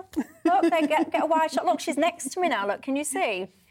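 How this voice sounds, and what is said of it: Teesside (Middlesbrough) northern English accent. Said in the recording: “does my accent bring back bad memories? ... your Teesside smoggy accent.”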